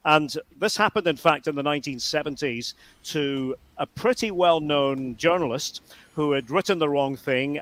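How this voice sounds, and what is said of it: Scottish accent. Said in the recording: “as you know from my accent, and if you know anything about me, I am from Scotland.”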